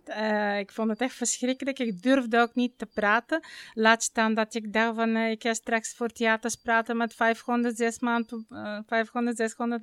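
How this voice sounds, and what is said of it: Bulgarian accent in Dutch. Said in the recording (Dutch): “je hoort het nog in mijn accent. Want als je pas op je negentiende naar Nederland komt ... dan kun je je accent bijna niet afleren ... ik kwam zelf uit Bulgarije”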